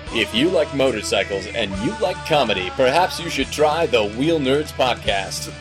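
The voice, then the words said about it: Announcer voice. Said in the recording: “doing my announcer voice.”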